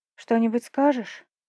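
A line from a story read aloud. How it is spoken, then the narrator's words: Sighing. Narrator (Russian): вздохнула я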